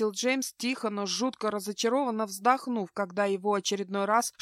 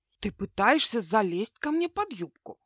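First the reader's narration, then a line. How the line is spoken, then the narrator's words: Mock-indignant whisper. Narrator (Russian): в притворном возмущении шепнула она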